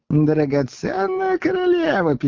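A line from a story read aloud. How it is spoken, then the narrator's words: Squeaky voice. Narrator (Russian): пищал Коровьев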